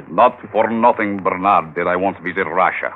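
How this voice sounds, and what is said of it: Convincing put-on Russian accent. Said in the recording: “You sound very convincing with that accent.”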